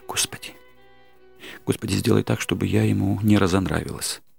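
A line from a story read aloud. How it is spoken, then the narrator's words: Hurried whisper. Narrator (Russian): торопливо зашептала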